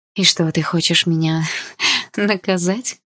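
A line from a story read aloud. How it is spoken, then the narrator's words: Laughing. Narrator (Russian): рассмеялась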